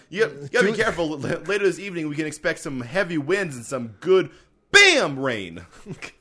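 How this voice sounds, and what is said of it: Loud cartoon character voice. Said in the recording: “I think you just broke everybody's eardrums... I'm doing Bam Bam... Bam Bam from the Flintstones”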